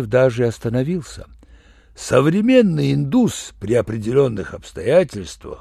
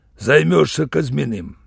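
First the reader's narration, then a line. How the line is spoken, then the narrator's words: Said rudely. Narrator (Russian): Он сказал, грубо даже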